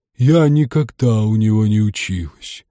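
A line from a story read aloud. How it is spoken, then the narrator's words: Sighing. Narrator (Russian): вздохнула Чепупаха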